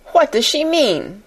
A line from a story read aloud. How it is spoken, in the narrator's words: cried Miss Minchin to Miss Amelia